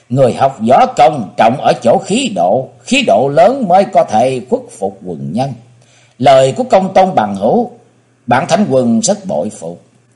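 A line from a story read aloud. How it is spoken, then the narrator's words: Laughing loudly. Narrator (Vietnamese): Võ Lâm Thánh Quân vỗ tay cười lớn nói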